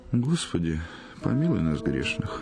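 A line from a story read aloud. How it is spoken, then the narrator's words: Sigh. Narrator (Russian): вздохнул благолепный Сергей Сергеевич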